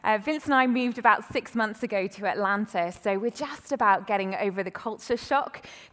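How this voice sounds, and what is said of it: British accent. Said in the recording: “You can tell by my accent, I'm definitely not from around here, though it was really great to hear a fellow British accent”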